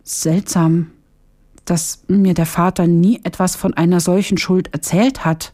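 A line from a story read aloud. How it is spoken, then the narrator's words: Confused stammering. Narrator (German): stotterte Hamdam ganz verwirrt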